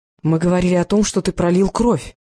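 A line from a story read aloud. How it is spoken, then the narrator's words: Sharp old woman's retort. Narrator (Russian): резко бросила старуха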